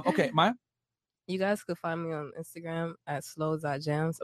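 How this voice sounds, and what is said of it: Stuffy, congested voice. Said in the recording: “I'm a little stuffy, so I sound like a stuffed couch”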